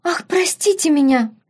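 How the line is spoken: Squeak. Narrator (Russian): пискнула Афродита

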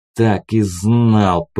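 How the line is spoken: Hissing. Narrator (Russian): прошипел я

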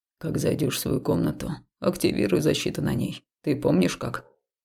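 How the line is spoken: Quiet question. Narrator (Russian): Тихо спросил Хаул

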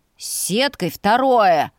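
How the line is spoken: Menacing bark. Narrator (Russian): грозно рявкнул

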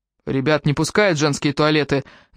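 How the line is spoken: Menacing. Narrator (Russian): грозно произнес Аттила

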